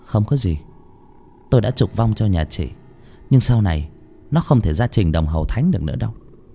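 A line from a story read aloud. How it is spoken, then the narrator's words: Smiling. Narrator (Vietnamese): Bà Yến mỉm cười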